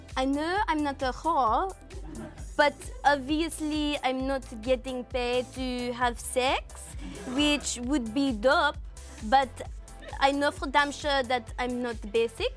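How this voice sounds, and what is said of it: Put-on French accent. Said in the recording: “Do the next one in a French accent... I do a French accent... Very good.”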